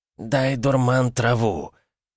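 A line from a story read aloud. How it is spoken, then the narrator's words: Hoarse rasping voice. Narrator (Russian): прохрипел новый голос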